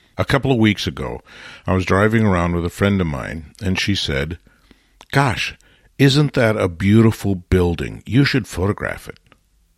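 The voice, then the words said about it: Congested, slightly altered voice. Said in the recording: “I'm still struggling a bit with a cold, so my voice is not its normal tonal self”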